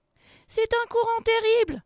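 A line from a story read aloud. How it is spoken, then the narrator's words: Shouting. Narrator (French): crie Enza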